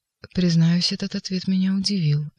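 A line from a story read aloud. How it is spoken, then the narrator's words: Soft. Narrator (Russian): мягко заговорил прокуратор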